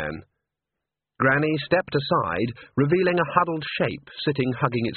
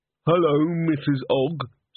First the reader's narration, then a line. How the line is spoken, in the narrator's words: said Walter mournfully